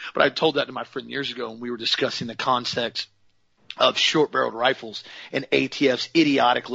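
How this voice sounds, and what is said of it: Usual voice. Nothing is said of it.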